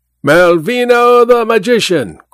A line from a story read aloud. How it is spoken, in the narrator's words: cried a flunky